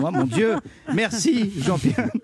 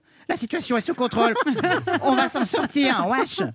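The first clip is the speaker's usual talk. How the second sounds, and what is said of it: Imitates another person's voice. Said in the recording (French): “Quelle belle imitation. ... Oui, belle réussite. Talent.”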